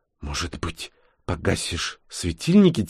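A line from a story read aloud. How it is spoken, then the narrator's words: Quiet question. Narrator (Russian): тихо спросила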